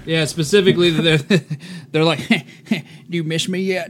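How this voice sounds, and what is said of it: Good George W. Bush impression. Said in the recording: “that's a good Bush impression.”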